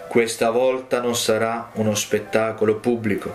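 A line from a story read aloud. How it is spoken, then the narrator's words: Plain. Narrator (Italian): disse lui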